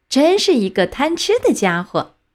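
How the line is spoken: Crowd laughing heartily. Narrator (Chinese): 大家都捧着肚子哈哈大笑，说道

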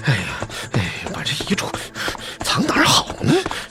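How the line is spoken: Muttering while running. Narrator (Chinese): 他边跑边嘟囔

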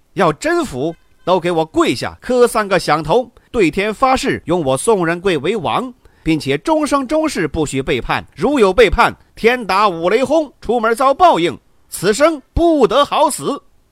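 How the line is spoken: Loud bellowing. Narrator (Chinese): 宋仁贵大声的喝道

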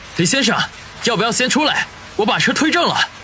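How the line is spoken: Shouting. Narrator (Chinese): 大声地喊道

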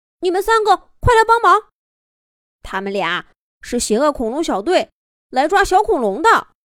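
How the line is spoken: Shouting while fighting. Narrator (Chinese): 板板边打边喊

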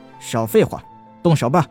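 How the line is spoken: Cold. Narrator (Chinese): 他冷冷的道

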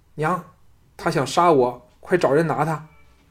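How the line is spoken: Trembling frightened voice. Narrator (Chinese): 小公子脸青唇白的 颤声说

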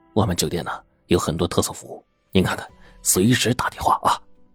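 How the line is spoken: Quiet voice. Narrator (Chinese): 服务员小声说

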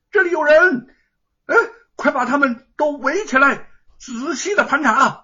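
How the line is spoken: Loud yell. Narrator (Chinese): 一个人扯着嗓子大喊

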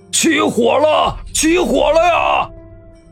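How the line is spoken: Shout from outside. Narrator (Chinese): 外面有人喊道

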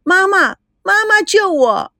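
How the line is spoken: Child's loud cry. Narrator (Chinese): 小童龙大声的叫着

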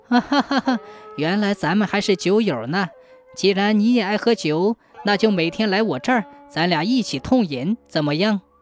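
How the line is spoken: Laughing. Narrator (Chinese): 先生听后笑着说

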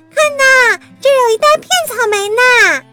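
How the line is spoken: Shouting. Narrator (Chinese): 苏梅喊道

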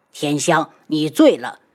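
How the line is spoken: Angry voice. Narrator (Chinese): 宇文景睿 怒声道

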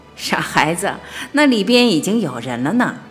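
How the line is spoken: Grandmother laughing. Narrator (Chinese): 奶奶瞧着我们就笑了

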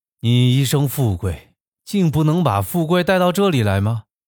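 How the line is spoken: Sorrowful. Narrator (Chinese): 那朋友悲哀地说

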